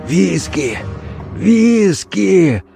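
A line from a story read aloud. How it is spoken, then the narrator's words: Hoarse wheeze with groan. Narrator (Russian): прохрипел он и со стоном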